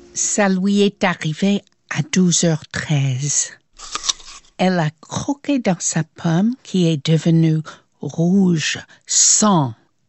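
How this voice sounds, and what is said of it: Light American accent in French. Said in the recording (French): “avec un léger accent américain”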